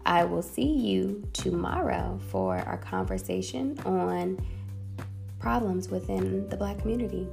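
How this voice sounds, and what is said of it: Tired-sounding voice. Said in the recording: “I'm kind of tired ... you can probably hear it in my voice”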